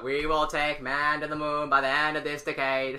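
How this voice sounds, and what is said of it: Boston-accented imitation of another person's voice. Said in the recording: “If you put the Boston accent on it ... That's really good. ... Yeah, JFK.”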